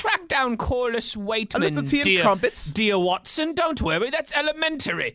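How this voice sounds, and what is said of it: Put-on British accent. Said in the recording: “I like your accent, dude. You're really from across the pond, mate.”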